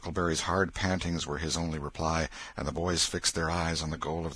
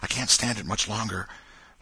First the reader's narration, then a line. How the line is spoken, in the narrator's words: whispered Tom in short catches between breaths